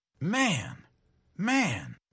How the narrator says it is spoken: exclaimed Scully

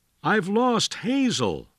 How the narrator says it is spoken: William Wallace cried to his friend

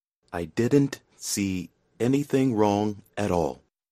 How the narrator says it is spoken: he said at last, slowly

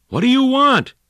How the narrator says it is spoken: he yelled

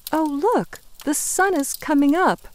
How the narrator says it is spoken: Hope says happily

